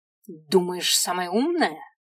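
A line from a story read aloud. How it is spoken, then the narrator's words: Spat angrily. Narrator (Russian): Злобно бросил черт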